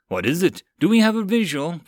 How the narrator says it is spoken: Ford called out

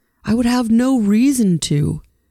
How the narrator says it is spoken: Paul yelled at her from the top of his lungs

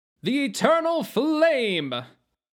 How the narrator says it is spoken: Sir Morgan and Dunstan shouted

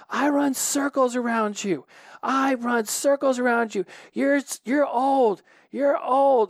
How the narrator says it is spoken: I yell at him

